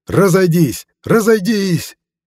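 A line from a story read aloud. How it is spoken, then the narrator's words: Shouting until hoarse. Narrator (Russian): До хрипоты в горле прокричал Шурик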